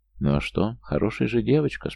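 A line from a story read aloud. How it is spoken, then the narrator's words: Calm speech. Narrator (Russian): спокойно прогрел Макс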